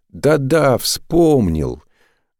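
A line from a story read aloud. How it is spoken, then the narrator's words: Joyful exclamation. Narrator (Russian): радостно воскликнул Саошьянд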